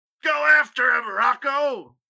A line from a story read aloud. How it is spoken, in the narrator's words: Pauly screamed from the corner